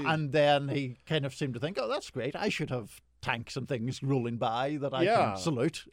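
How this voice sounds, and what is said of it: Non-American foreign accent. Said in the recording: “people might be able to tell from your accent that you ain't from around here”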